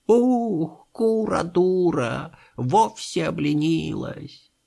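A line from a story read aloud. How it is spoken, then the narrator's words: Shivery, creaky old voice. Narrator (Russian): Петух как-то знобко, старческим голосом проскрипел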